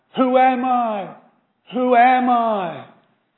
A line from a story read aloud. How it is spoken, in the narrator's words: it cried